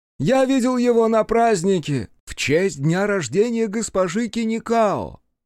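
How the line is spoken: Proud shout. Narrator (Russian): гордо закричал Фоя

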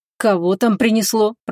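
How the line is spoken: Grumbling. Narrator (Russian): проворчал он

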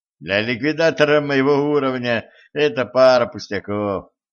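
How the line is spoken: Laughing. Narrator (Russian): рассмеялся Денис

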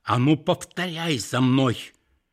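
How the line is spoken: Grandmother's strange, altered voice. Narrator (Russian): бабушка опять каким-то чужим голосом произнесла

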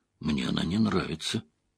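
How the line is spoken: Very quiet mutter. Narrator (Russian): пробормотала Эгвин совсем тихо, чтобы Айс Седой ни за что не услышала

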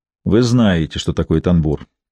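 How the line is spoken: Gloomy reply. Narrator (Russian): так же мрачно ответил

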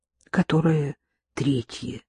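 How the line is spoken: Blushing mumble. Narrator (Russian): краснее пробормотала

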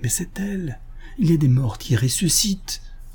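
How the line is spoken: Spaniard murmurs. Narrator (French): murmura l'Espagnol

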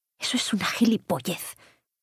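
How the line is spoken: Murmured. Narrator (Spanish): murmuró

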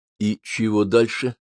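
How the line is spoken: Bewildered question to self. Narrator (Russian): растерянно спросил я себя

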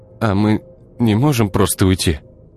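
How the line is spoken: Unsure question. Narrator (Russian): неуверенно спросил Артем

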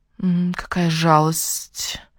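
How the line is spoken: Sympathetic hiss. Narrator (Russian): прошипела Сара с симпатией

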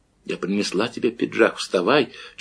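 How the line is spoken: Barely audible whisper. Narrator (Russian): чуть слышно прошептала она

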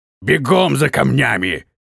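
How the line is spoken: Roar. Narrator (Russian): проревел полусотник

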